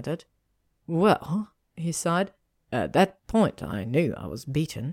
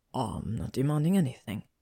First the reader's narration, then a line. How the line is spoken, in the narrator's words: Draco whispered, moving his mouth on her throat